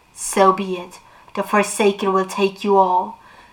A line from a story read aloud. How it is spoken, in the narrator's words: Between his teeth he hissed